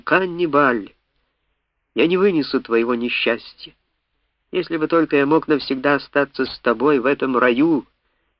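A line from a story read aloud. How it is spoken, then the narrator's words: Infatuated exclamation. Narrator (Russian): Инки, окончательно потерявший голову от этого очаровательного создания, воскликнул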